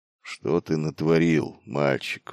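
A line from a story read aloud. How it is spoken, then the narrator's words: Sighing. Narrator (Russian): вздохнул он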